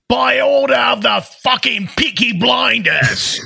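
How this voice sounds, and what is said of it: Peaky Blinders impression. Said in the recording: “your impression of Peaky Blinders”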